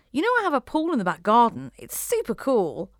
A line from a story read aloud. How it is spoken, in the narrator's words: Tilly exclaimed